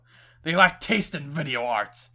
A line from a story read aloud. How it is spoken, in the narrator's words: he scoffed